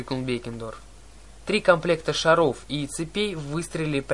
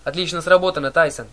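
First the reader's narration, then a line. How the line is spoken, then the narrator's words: Excited yell. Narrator (Russian): завопил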